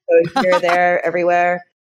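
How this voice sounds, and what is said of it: Put-on American accent. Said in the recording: “I can flip to an American accent really quickly for you guys if you want me to.”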